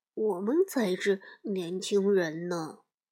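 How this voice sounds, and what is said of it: Quiet muttering. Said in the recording (Chinese): “小声嘀咕着”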